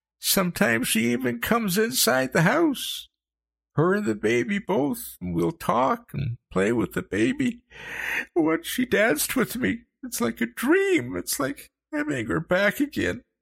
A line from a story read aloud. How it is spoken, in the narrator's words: he sobbed, his head hanging